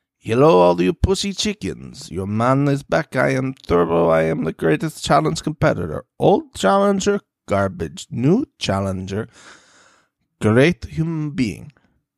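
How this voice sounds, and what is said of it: Character accent bordering on Russian. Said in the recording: “stayed in that accent and did not go to like Russian assassin, which it was bordering on the entire time”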